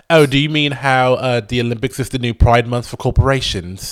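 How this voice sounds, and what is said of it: Put-on British accent drifting Australian. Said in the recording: “Am I still British? ... my British accent is like me driving through the countryside ... now all of a sudden you're like, oi ... how'd you get to Australia? How did you get to Australia from London?”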